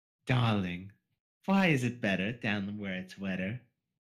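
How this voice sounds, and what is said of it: Rarity voice instead of Jamaican accent. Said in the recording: “it's supposed to be a Jamaican accent, not rarity accent.”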